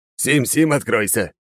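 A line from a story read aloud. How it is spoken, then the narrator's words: Joyful yell. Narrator (Russian): радостно заорал Алекс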